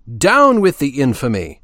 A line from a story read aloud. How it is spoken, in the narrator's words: cried Voltaire